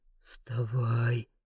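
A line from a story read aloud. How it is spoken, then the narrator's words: Quiet urging. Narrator (Russian): тихо понукает меня Маргуль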